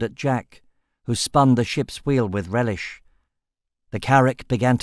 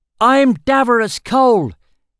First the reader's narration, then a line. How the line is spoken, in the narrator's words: he shouted down at them